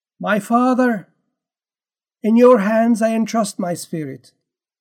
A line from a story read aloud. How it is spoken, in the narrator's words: Jesus called out loudly, saying